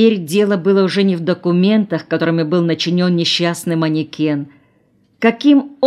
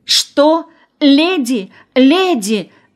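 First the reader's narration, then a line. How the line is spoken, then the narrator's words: Astonished exclamation. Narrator (Russian): воскликнула в изумлении Ася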